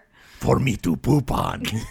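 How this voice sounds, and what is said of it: Insult comic dog character voice. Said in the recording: “He's stupid insult dog is what he is ... He's Triumph. That's him.”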